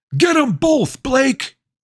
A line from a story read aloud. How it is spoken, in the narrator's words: Someone from the crowd yelled